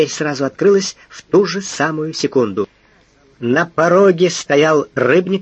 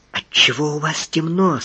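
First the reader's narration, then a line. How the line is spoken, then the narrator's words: Whispered question. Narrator (Russian): спросила она почему-то шепотом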